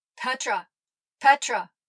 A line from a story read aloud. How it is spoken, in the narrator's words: Dab's voice barked